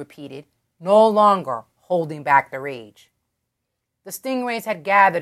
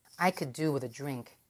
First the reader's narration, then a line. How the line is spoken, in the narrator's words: Mira said